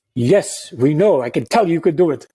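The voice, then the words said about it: Deliberately bad put-on accent. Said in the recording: “that's a bad accent, but I'm trying”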